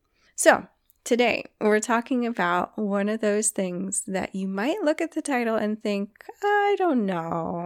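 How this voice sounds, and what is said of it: Froggy, slightly hoarse voice. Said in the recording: “my voice sounds a little bit froggy... my voice gets a little bit funky when it's really cold”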